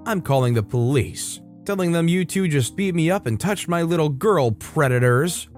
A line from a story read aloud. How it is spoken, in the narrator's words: Suddenly jolted back to her normal self and exclaimed